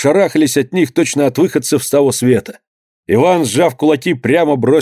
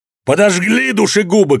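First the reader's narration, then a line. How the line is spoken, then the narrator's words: Shouting. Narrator (Russian): кричал он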